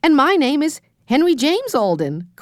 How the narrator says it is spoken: cried Henry

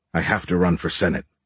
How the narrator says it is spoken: Beckham firmly stated

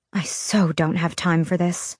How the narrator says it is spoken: I muttered

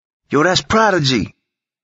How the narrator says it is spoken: a few inmates yelled out

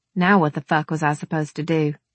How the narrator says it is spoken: I sighed

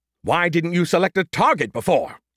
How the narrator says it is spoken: He snapped back

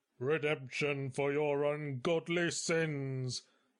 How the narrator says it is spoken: barked Thaddeus opportunistically

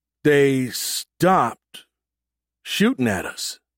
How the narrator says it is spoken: Bilby said slowly

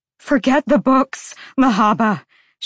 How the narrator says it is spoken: she pleaded

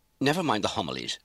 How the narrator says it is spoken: she snapped

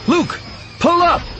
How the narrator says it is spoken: I shout

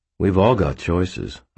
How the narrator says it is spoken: I said calmly

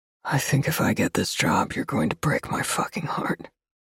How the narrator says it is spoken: Under his breath, nearly a whisper, he says

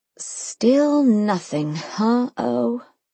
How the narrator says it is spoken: I sighed

